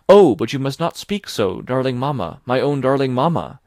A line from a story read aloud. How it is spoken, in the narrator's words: exclaim, tears of joy and love fall from my eyes